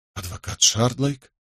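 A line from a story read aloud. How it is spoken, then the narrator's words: Muttering. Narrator (Russian): пробормотал он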